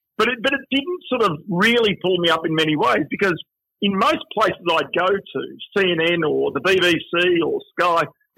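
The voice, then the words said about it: Broad Australian accent. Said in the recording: “you were Australian, had an Australian accent ... I've got a fairly broad accent.”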